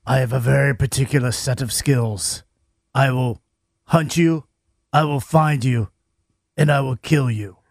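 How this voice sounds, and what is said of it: Liam Neeson impression. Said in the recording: “you do a Liam Neeson impression”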